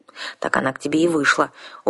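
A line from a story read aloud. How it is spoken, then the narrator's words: Sullen worried grumble. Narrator (Russian): угрюмо проворчала я, в этот момент тоже озабоченная нашими дальнейшими планами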